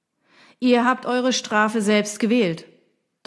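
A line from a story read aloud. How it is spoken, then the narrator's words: Thunderous booming. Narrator (German): donnerte er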